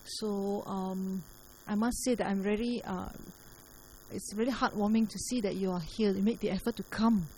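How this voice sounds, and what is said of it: Soft, quiet speaking voice. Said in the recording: “my voice is actually quite soft”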